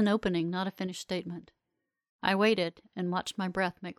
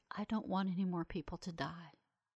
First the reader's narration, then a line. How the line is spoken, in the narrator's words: he whispered